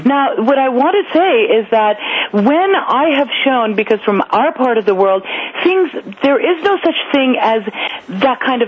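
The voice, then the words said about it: American accent. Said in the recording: “I do speak with an American accent”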